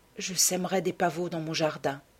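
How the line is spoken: Sighed. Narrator (French): soupira Dorian

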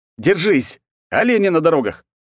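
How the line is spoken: Shout. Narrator (Russian): я только успел крикнуть

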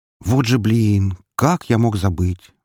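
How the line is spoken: Sigh of feigned regret. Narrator (Russian): вздохнул с притворным сожалением

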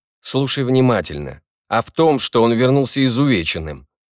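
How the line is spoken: Barking. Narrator (Russian): Гордий рявкнул

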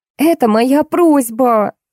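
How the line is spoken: Shrill squeal. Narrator (Russian): взвизгнула Милка

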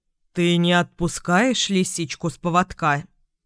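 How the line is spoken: Stern father's question. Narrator (Russian): строго спросил Луну папа

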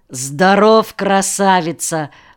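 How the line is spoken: Deep bass voice. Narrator (Russian): пробасил его спутник

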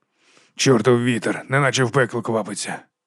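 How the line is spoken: Whispered cursing. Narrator (Ukrainian): пошепки лаявся Воткінс

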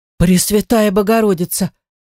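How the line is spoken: Frightened exclamation. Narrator (Russian): испуганно воскликнула Аннетта

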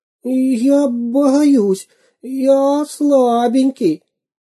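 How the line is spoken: Whimpering spy. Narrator (Russian): захныкал шпион

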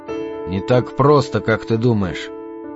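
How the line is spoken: Quiet reply. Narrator (Russian): тихо ответил он

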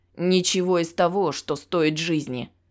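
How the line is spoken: Growling. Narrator (Russian): рычал брюнет

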